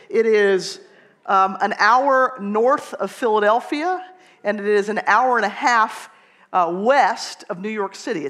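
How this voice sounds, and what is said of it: Southern American accent, Atlanta Georgia. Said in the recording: “I am from Atlanta, Georgia, if you didn't recognize the accent”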